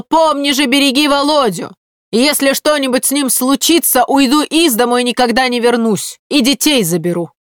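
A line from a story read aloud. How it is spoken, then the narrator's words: Woman shouting after husband. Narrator (Russian): она еще мужу вслед бесстыдница крикнула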